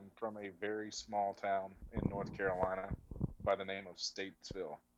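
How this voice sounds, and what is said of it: Southern Appalachian North Carolina accent. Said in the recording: “I have some good old mountain heritage in me. So that's where my accent comes from. It's not as bad as it used to be”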